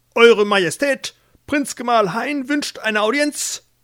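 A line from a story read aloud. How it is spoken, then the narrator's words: Page bellowing. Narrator (German): stand vor Ilsebill ein Page und brüllte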